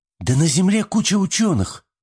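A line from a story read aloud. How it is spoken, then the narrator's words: Exclaimed. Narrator (Russian): воскликнула Рашми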